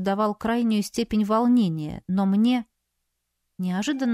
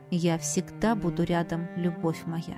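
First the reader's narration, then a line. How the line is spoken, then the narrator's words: Quiet. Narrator (Russian): негромко произнес магистр Вас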